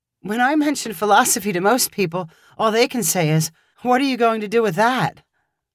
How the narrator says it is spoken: Jude awkwardly chuckled, bursting to share his own experiences with the question

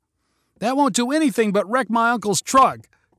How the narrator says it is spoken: cried Colby

